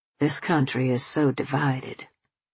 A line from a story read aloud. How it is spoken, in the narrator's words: he murmured